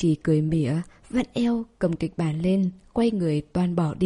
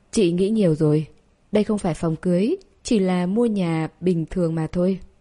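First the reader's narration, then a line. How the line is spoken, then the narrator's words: Cold, indifferent. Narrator (Vietnamese): lạnh lùng, hờ hững nói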